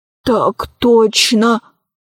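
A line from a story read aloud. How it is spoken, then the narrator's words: Whisper. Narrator (Russian): прошептал несчастный калека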